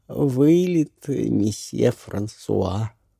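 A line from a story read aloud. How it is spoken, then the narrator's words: Drawled. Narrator (Russian): протянула она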